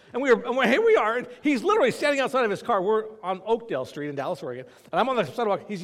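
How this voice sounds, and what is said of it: Usual voice. Nothing is said of it.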